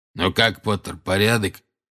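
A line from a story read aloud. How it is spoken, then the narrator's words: Hoarse wheeze. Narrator (Russian): прохрипел Грюм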